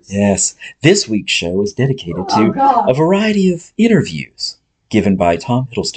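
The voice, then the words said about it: Creepy NPR-style radio voice. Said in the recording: “if that voice is creeping y'all out as much as it is me ... that's the creepy, I'm peeking through your window voice ... That's my NPR voice. ... It's creepy.”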